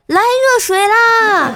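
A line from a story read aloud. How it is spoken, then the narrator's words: Excited shout. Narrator (Chinese): 黑暗中的室友兴奋地喊道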